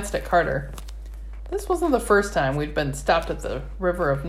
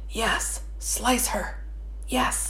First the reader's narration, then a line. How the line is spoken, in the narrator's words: Our glowing orbs swarmed in a frenzy, whispering